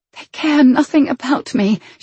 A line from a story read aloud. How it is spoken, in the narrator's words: she whispered to her knees